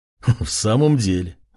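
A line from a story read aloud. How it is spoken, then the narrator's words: Man laughing, others join. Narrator (Russian): засмеялся мужчина, а вслед за ним еще и несколько стоявших рядом людей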